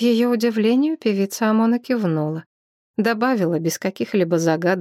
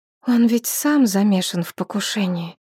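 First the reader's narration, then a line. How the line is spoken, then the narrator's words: Quiet. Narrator (Russian): тихо проговорила Шепсет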